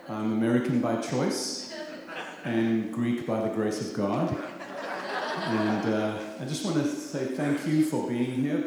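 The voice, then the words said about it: South African accent. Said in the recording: “South African by accent”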